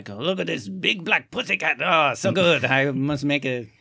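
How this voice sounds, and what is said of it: Put-on French accent. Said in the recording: “I don't know why I have a French accent”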